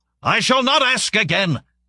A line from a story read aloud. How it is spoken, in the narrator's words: he bellowed